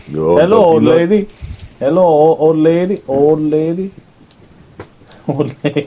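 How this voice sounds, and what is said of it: Weird put-on accent, hard to understand. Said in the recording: “that was like a weird Andre the Giant-ish accent ... Weird as in I no one understood it.”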